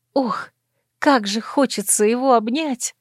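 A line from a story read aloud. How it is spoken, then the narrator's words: Sudden tired sob. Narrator (Russian): Неожиданно для себя всхлипнула, чувствуя, как разом навалилась усталость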